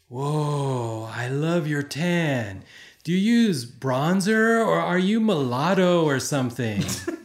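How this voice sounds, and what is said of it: Convincing put-on surfer accent. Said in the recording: “I know what accent it is and he nailed it. ... Surfer. ... Yep, it was Surfer.”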